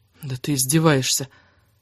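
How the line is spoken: Gloomy mutter. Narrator (Russian): мрачно пробормотала она себе под нос

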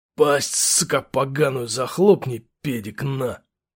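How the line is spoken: Through gritted teeth. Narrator (Russian): процедил сержант

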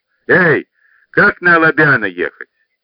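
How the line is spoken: Careless shout. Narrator (Russian): не здороваясь, небрежно крикнул

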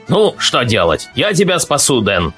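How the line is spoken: Plain. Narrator (Russian): сказал гусак

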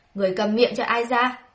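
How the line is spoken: Loud angry shout. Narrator (Vietnamese): Thái hậu đã lớn tiếng quát

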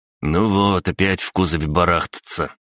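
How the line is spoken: Sighing. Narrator (Russian): вздохнул Краснян

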